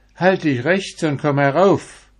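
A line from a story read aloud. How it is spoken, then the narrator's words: Old woman calling out. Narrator (German): eine alte Frau, die rief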